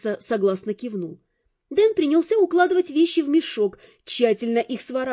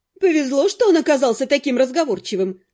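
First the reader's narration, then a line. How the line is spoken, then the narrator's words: Snorting. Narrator (Russian): хмыкнула Нед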